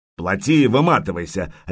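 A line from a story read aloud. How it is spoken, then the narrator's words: Barked. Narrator (Russian): рявкнул Рябой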